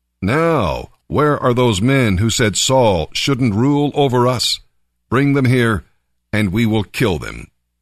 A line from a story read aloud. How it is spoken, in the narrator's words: the people exclaimed to Samuel